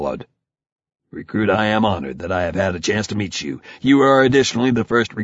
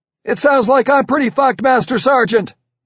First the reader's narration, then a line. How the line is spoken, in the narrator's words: I yelled